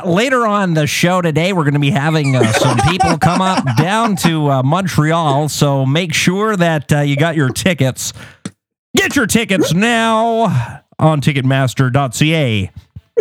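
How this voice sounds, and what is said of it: Canadian radio DJ voice. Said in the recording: “that's a good radio voice ... Very good radio voice ... You want the Canadian version? The Canadian version.”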